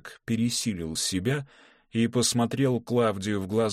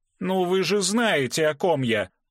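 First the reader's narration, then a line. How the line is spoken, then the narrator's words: Nearly shouted. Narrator (Russian): почти выкрикнул герцог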